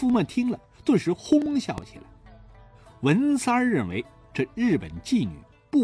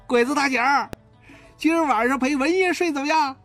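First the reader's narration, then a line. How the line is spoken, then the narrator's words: Jeering shout. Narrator (Chinese): 他起着哄的喊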